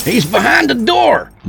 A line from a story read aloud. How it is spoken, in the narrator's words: Rudy yelled